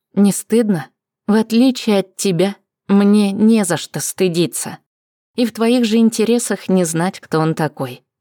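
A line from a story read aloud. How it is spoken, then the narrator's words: Plain. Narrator (Russian): ответила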